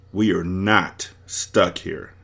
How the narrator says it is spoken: David said firmly

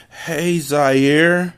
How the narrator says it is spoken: she said in a slurred voice

